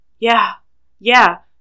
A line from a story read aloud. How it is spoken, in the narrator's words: Sean pants